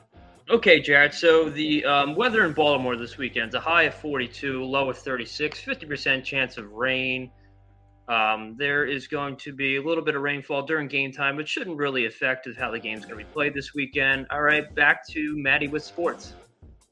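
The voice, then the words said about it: Mock TV weather forecaster voice. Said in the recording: “talk like a meteorologist.”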